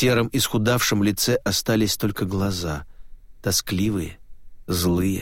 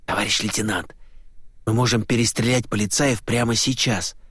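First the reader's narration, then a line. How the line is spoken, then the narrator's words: Hissed. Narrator (Russian): прошипел Осташкин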